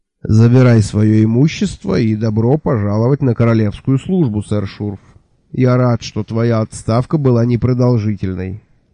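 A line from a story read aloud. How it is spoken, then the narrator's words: Tired, smiling. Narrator (Russian): устало улыбнулся Джуфин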